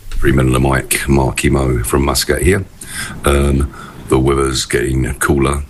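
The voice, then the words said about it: Radio announcer voice. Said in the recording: “the man with a definite radio voice ... Best voice in radio ... He's had 19 cigars, but this is how he sounds.”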